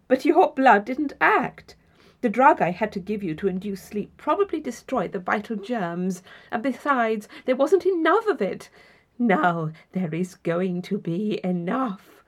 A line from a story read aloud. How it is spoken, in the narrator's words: he laughed pleasantly